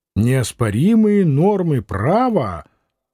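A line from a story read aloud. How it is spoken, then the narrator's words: Brassy, mocking. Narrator (Russian): Томилин усмехался медной усмешкой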